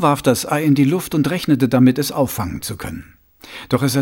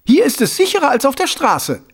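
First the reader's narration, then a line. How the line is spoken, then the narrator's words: Loud reply, face to face. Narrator (German): erwiderte fast ebenso laut, Nase an Nase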